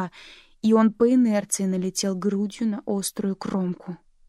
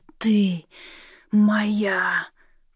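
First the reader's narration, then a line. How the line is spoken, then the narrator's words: Hoarse wheeze. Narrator (Russian): прохрипел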